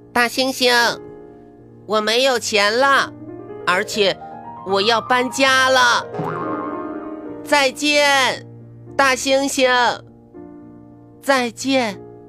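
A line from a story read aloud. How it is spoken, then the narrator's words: Loud shout. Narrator (Chinese): 咪咪大声冲他喊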